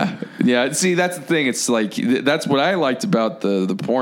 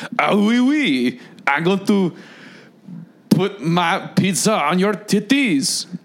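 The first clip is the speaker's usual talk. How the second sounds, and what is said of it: Put-on French accent. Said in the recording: “I was surprised to hear that French accent come out.”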